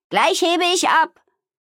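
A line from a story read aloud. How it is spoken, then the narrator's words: Calling out. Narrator (German): rief Amalie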